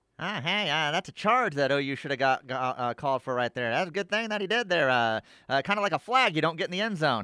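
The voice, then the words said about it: Imitates another person's voice. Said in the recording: “dead on D- Doug Gottlieb there. That's about as good of impersonation as you've ever ... thought it was Doug for a second.”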